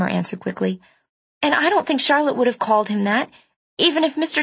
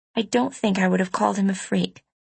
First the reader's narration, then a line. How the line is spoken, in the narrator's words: I said quietly